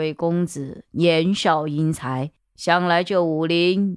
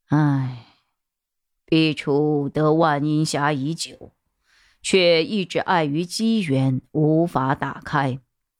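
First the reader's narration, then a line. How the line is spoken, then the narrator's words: Sudden sigh. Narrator (Chinese): 公孙楼主突然叹息了一声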